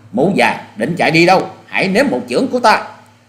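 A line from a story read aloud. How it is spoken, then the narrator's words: Loud shout. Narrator (Vietnamese): Hoa Sĩ Kiệt quát to lên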